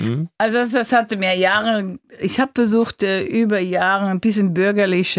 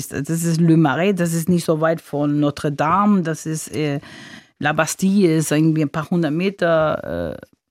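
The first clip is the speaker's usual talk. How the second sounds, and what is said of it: German speech with French accent. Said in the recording (German): “wenn Sie über Paris reden, fallen Sie plötzlich in einen französischen Akzent”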